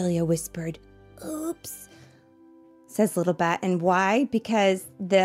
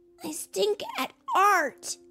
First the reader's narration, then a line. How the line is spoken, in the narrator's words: he cried